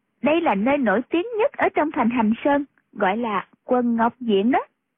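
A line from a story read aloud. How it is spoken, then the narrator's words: Smiling. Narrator (Vietnamese): Khúc Phi Yên mỉm cười nói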